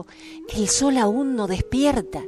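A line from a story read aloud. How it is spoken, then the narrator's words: Whispered. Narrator (Spanish): El rojo susurró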